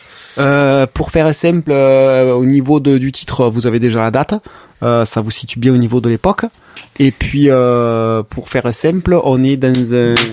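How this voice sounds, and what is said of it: Put-on accent. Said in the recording (French): “Arrête cet accent tout de suite ... parce que c'est pas possible ... Tu tues les oreilles à chaque tape”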